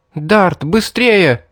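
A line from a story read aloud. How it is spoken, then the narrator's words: Shouted. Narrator (Russian): крикнула Мэри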